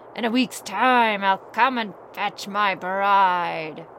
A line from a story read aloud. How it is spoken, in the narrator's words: The bear growled after him